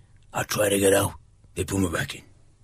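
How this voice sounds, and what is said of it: Imitates another person's voice. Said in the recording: “I could do Al Pacino, oh. Godfather 3... I'll try again”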